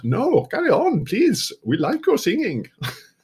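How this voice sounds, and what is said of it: Bad put-on German accent. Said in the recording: “That's also my worst German accent I've ever done.”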